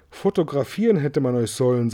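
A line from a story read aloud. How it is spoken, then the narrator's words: Plain. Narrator (German): sagte Seidelbast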